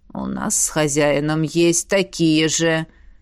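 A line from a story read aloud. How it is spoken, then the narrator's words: Jealous hiss in head. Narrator (Russian): раздалось в голове ревнивое шипенье дракона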